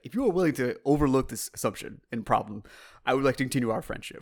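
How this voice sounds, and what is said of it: Bad Worf impression. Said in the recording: “That's the worst Worf impression I've heard.”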